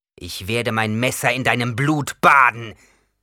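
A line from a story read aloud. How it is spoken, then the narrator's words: Growled. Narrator (German): knurrte Yamis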